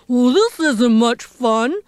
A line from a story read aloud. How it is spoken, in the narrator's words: the poor elephant grumbled